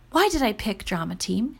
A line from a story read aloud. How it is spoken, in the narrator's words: calmly asked herself